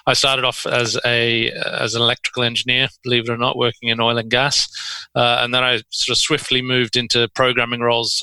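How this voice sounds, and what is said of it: Australian accent. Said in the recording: “it should become clear from my accent after not too long that I'm actually from Perth originally”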